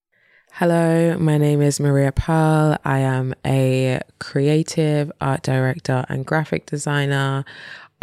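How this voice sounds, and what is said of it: Mixed London-area English accent. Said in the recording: “West London ... East Sussex ... South London, which is probably why my accent just flows between all of them”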